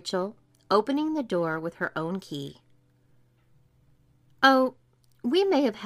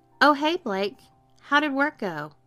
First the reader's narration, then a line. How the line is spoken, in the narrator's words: called Cheryl, cheerfully from his bedroom